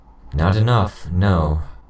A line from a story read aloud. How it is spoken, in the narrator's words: I said with a sigh